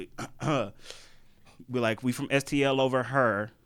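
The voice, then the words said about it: Put-on St. Louis accent. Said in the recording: “Let me put on the STL accent real quick”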